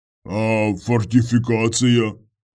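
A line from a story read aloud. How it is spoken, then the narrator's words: Deep bass voice. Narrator (Russian): пробасил он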